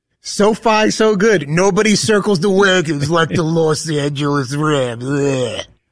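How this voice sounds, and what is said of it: Imitates another person's voice. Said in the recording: “You're a much better Chris Berman impersonation ... I'm trying to do the impersonation”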